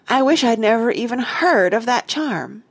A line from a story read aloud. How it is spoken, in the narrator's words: cried Jane in a rage